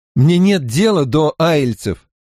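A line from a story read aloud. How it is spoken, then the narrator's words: Irritated. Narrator (Russian): раздраженно сказал Ранд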